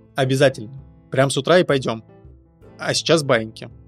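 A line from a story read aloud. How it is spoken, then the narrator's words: Stern. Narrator (Russian): строго сказала Мария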